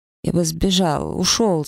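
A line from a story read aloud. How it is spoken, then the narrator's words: Mumbling. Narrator (Russian): забормотал он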